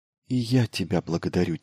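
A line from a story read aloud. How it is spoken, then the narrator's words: Quiet. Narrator (Russian): тихо произнесла Елена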